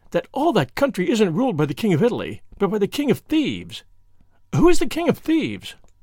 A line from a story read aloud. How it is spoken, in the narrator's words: she cried, with the awful relish of a schoolgirl